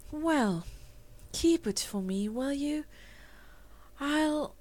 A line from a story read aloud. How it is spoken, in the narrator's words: her voice was dreamy as she answered